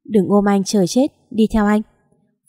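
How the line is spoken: Cold voice. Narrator (Vietnamese): Phần tác lạnh lùng nói

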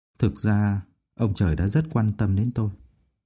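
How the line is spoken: Gentle soft voice. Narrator (Vietnamese): Phương Mộc nhẹ nhàng nói

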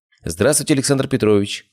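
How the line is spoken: Cheerful greeting. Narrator (Russian): бодро приветствовал дождавшийся приема пациент Бехтерева

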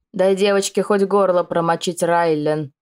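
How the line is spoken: Grumbling. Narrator (Russian): проворчала леди Шайда

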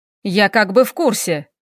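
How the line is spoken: Bark. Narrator (Russian): рявкнул Хэл

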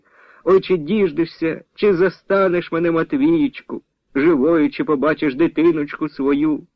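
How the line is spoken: Old woman wailing. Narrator (Ukrainian): Заголосила баба Христя

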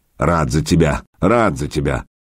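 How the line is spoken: Grumbling in Norman. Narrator (Russian): по-нурмански проворчал Владимир

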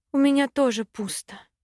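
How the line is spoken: Disappointed sigh. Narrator (Russian): разочарованно вздохнула я

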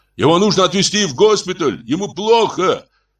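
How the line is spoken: Shout. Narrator (Russian): Кто-то закричал

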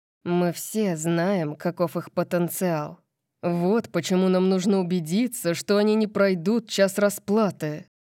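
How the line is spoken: Growl. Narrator (Russian): прорычал Макс

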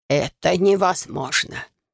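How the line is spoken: Wheezing after coughing. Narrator (Russian): прокашлявшись, просипел советник

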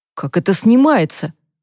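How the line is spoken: Muffled grumble against lips. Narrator (Russian): проворчал Люк, не отрываясь от ее губ

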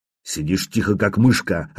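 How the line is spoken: Growled. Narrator (Russian): рыкнул

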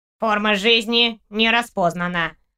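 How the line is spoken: Nasal loudspeaker. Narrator (Russian): прогнусавил динамик

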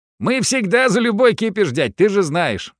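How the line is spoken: Young man laughing. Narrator (Russian): рассмеялся парень

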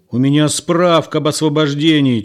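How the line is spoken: Nearly yelling. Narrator (Russian): чуть не заорал ему в лицо Егор

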